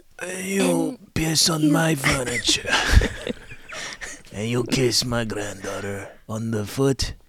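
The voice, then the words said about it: Greasy gravelly New York accent. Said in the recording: “I'll do like a really greasy sounding dude that has a New York accent... speak in a like gravelly voice”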